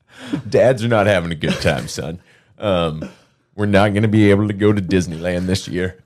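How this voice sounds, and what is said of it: Put-on stern dad voice. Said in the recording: “This is my dad voice.”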